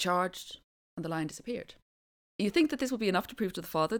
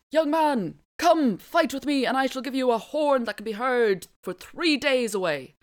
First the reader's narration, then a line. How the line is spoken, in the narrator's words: the first genie called out